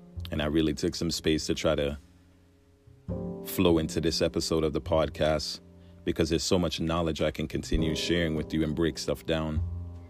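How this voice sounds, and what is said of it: Voice breaking up, tired. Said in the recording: “My voice is breaking up. I apologize. It's late.”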